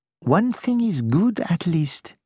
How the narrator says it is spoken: he said

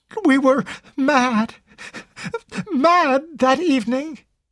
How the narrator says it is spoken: Carol sobbed out brokenly

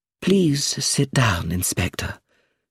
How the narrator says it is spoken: she said in a calm, quiet voice

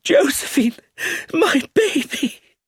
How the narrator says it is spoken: Her voice rose as she cried

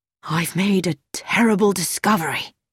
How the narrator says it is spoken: took a deep breath, bent his head and almost whispered

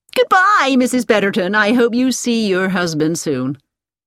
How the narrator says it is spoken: she said cheerfully

